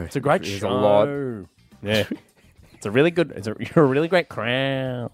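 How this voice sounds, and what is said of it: Imitates another person's voice. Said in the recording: “my Husey impression... That's always a great impression”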